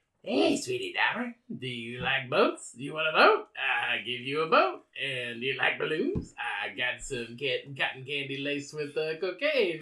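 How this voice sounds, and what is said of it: Whispered creepy clown character voice. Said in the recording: “he hears someone whispering to him from the gutter. And it is Pennywise.”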